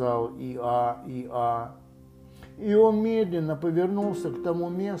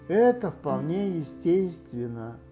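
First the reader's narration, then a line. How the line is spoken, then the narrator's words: Sad. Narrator (Russian): грустно сказал И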